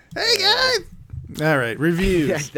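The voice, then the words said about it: Decent Charlie Day impression. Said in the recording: “You sound like Charlie Day over there. ... That's not a bad Charlie Day impersonation,”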